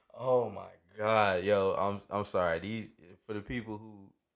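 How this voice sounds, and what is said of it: Usual voice. Nothing is said of it.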